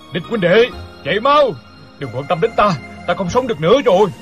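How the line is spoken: Loud shout. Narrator (Vietnamese): hét lớn

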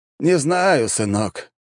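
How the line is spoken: Resigned sigh. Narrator (Russian): обреченно вздохнул король

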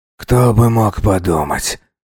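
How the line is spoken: Muttered. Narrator (Russian): пробормотал он

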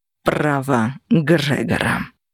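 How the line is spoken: Icy cold voice. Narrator (Russian): ледяным голосом ответил Кости

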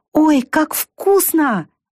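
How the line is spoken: Delighted exclamation. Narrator (Russian): воскликнула она

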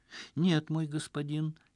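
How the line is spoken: Barely audible. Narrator (Russian): еле слышно донеслось в ответ

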